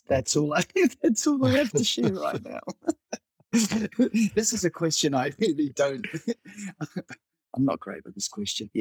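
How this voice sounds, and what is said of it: New Zealand accent. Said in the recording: “It is a New Zealand accent, not an Australian one.”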